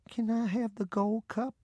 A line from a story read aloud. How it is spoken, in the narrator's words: in a bashful voice, she asked